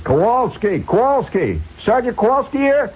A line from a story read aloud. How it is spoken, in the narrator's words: somebody hollers